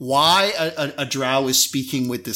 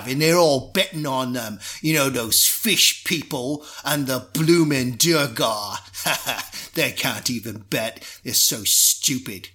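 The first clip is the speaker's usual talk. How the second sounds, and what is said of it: Put-on Cockney pirate accent. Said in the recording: “this kind of Cockney accent ... in pirate, it sounds a bit like this”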